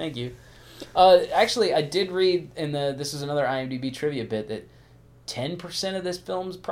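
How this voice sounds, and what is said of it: Usual voice. Nothing is said of it.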